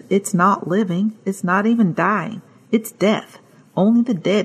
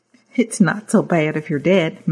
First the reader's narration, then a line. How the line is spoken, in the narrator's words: Mary says, chuckling